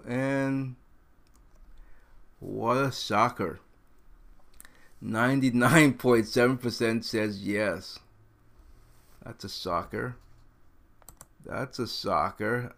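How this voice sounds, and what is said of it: Sarcastic mock-surprised tone. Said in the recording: “Obviously, I'm being sarcastic.”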